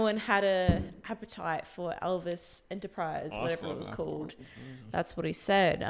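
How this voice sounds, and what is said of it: Usual voice. Nothing is said of it.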